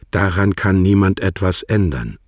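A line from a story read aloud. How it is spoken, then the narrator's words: Plain. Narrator (German): sagte sie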